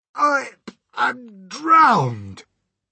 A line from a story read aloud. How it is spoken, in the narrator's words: gasped the old green grasshopper, spitting out water by the pint